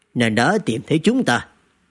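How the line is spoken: Old ancestor, smiling. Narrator (Vietnamese): lão tổ Hạ Công Cẩn của Hạ gia mỉm cười, nói

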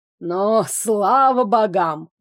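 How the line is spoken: Old man exhaling. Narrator (Russian): выдохнул старичок

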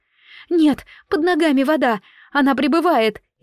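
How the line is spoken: Frightened reply. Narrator (Russian): испуганно отозвалась Ума

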